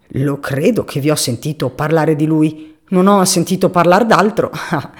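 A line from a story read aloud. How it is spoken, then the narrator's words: Old man's mocking mutter. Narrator (Italian): borbottò il vecchio con il suo strano piccolo sorriso canzonatorio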